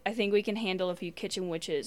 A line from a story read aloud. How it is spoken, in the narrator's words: Ruby says